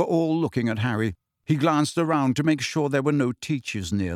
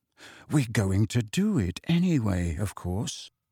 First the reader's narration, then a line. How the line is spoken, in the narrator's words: he said quietly